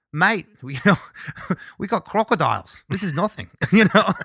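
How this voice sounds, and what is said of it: Poor imitation Australian accent. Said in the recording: “my poor Australian accent”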